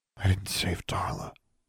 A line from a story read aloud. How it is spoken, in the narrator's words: Alexandra whispered